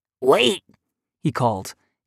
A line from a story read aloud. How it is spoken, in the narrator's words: his voice raspy